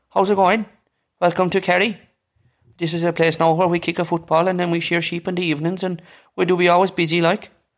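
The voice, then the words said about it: Put-on County Kerry Irish accent. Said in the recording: “Can you do Kerry accent?”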